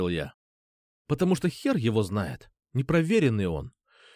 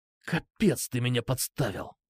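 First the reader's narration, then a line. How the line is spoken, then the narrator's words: Indignant whisper. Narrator (Russian): возмущенно прошептал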